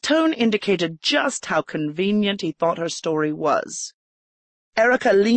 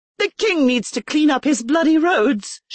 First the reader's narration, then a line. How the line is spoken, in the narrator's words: she exclaimed